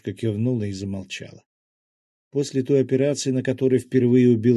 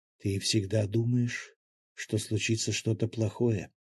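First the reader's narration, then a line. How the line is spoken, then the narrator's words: Quiet speech. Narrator (Russian): тихо проговорила Мила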